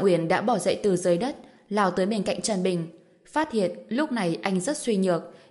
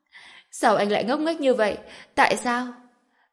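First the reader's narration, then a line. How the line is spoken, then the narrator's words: Smiling. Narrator (Vietnamese): Trần Bình mỉm cười nói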